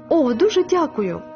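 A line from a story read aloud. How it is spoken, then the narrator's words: Tearful exclamation. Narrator (Ukrainian): витираючи сльози, вигукнула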